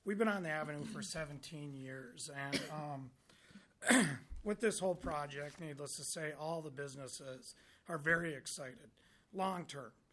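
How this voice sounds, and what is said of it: Hoarse, fading voice. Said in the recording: “Losing my voice a little, I apologize.”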